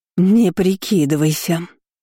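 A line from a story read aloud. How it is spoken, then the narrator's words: Hissing. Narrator (Russian): зашипела тетка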